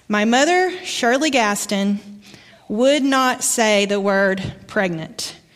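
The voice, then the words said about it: Southern American accent from Arkansas. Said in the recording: “My accent comes from Arkansas”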